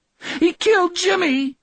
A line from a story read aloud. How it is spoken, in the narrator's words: Dave Reed bawled